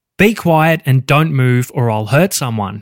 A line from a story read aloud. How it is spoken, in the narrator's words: he said